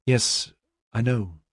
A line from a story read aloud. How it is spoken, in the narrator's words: she said weakly